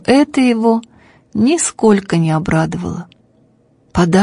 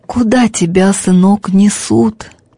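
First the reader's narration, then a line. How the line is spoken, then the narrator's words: Hoarse, unrecognizable father's voice. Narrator (Russian): каким-то неузнаваемым, осипшим голосом спросил отец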